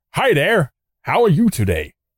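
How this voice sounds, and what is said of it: Put-on American accent. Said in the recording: “if you've ever done an American accent.”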